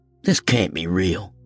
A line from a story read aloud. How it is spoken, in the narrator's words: grunted Lorna